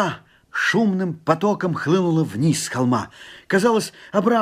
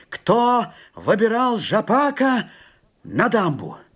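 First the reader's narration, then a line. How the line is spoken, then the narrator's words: Shouted. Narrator (Russian): так крикнул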